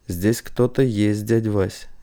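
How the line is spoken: Quiet. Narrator (Russian): негромко сказал он

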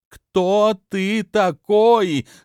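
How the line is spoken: Loud scream. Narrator (Russian): громко закричала

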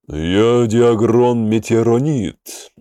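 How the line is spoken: Deep bass voice. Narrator (Russian): густым басом произнес он

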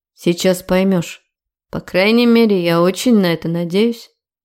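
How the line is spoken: Grim promise. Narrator (Russian): мрачно пообещал он

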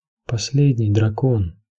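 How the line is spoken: Weak whisper. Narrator (Russian): слабым голосом шепнул сир Джорах

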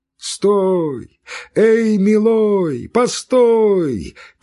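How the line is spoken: Two voices shouting. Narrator (Russian): кричали два голоса

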